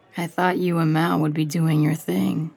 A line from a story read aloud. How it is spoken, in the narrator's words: says